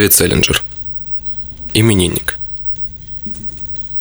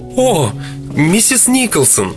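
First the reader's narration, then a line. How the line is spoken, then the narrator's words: Very loud exclamation. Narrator (Russian): Мисс Коллинз воскликнула так громко, будто встретила родственницу, которую уже 20 лет как считали умершей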